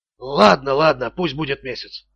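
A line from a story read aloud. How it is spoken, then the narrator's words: Hoarse rasp. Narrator (Russian): прохрипел должник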